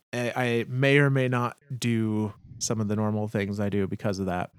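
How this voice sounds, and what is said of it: Slightly wonky voice. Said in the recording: “I am on the tail end of being sick. So apologies if my voice is a little wonky.”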